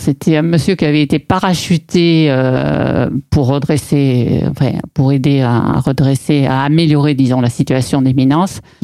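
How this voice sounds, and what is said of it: Southern French Aveyron accent. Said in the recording (French): “j'ai toujours eu l'accent du Midi ... c'est exactement l'accent de l'Aveyron”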